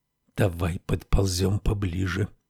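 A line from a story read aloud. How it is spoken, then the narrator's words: Whisper. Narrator (Russian): прошептал герцог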